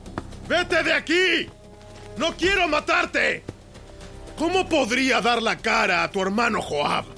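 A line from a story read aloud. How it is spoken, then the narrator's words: Shouting again. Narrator (Spanish): Abner le volvió a gritar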